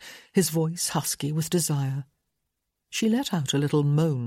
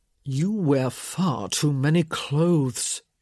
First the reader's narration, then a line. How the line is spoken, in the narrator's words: he growled